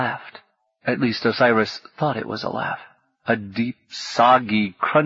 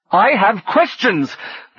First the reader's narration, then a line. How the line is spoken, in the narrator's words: the god shouted